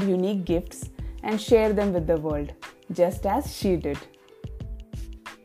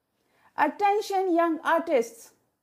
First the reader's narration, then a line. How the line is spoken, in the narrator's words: exclaimed